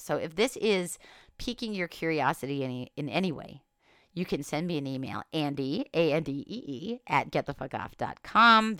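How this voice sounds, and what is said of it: Voice sounds unwell, irritated. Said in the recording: “I apologize for my voice. I hope it wasn't too irritating to listen to, and I'm sure I'll be better by the next time I record.”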